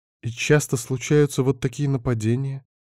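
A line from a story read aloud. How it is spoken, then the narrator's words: Frightened questioning. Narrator (Russian): уточнила Эва, испуганно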